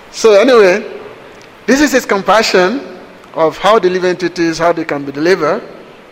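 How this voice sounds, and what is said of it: Speaks English with a noticeable accent. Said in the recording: “sorry for my accent. I don't know if I'm understood or not.”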